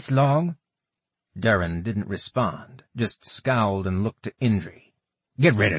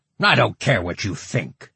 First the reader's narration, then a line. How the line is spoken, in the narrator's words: Durin snapped